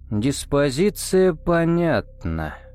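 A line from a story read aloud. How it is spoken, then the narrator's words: Drawled. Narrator (Russian): протянул Кобра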